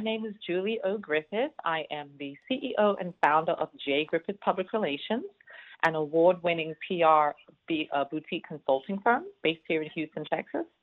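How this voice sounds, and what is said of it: British accent mixed with Southern. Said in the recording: “that accent ... born and raised in London, North London, UK. Moved here many, many years ago, but never lost the accent. So I'm a British Southerner.”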